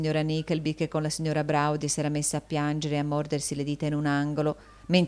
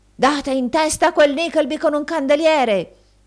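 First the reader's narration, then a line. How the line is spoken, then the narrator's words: Shouted through keyhole. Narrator (Italian): gridò il signor Squeers per il buco della chiave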